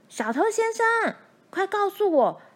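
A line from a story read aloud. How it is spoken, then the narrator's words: Loud shouting. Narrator (Chinese): 大拇指继续高声叫嚷着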